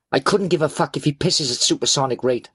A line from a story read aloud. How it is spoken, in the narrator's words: I snapped